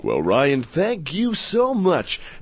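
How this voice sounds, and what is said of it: Exaggerated deep radio announcer voice. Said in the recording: “trying my radio voice ... my radio voice ... talk like this ... having radio presence”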